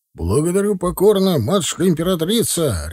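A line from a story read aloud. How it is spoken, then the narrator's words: Barked. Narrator (Russian): рявкнул Лёшка ей вслед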